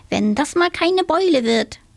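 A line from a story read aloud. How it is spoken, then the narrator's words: Whining. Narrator (German): jammerte sie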